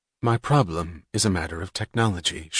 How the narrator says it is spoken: she said, in the clear, expressionless tone of a young mechanic discussing a difficult assignment

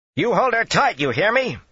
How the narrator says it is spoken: she shrieked like a cat

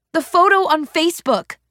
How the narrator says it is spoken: I yelled, my frustration bursting out of me

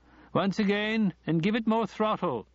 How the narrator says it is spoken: he shouted

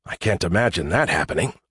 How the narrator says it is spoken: I muttered

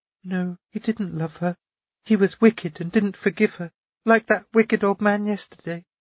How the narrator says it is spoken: she said quietly, almost in a whisper

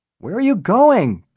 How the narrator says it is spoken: Bennett shouted after her

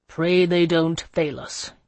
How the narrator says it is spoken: he said grimly

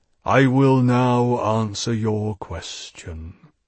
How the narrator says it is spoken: he said solemnly

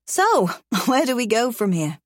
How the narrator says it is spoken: I laugh

